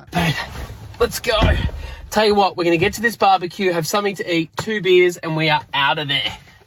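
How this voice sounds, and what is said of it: Australian accent. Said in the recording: “I believe it's an Aussie accent.”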